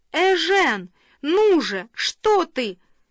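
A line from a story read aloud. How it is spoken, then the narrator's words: Pained shout. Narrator (Russian): Франсуаза ударилась коленом о стул и закричала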